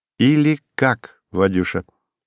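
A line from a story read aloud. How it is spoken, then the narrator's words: Casual, carefree tone. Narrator (Russian): сказала она независимым тоном отпускницы, напрочь забывшей о служебной иерархии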